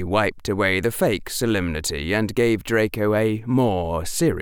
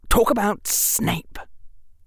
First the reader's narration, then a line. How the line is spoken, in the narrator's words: Draco hissed